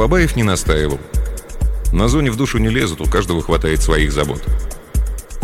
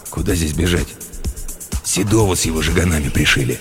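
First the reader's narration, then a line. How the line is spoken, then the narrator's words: Wary mutter. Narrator (Russian): Тот, опасливо глянув по сторонам, буркнул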